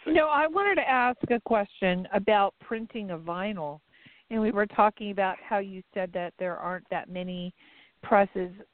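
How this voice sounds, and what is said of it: Hoarse, failing voice. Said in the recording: “my voice is going”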